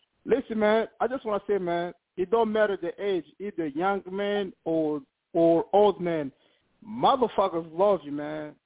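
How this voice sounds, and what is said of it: African accent. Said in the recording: “you know I got an accent. I'm an African motherfucker.”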